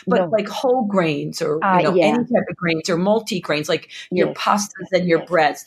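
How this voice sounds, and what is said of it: Accented English speech. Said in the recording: “My accent is bad.”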